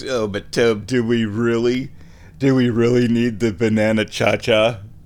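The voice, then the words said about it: Snarky mocking voice. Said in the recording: “in your head in your little snarky voice.”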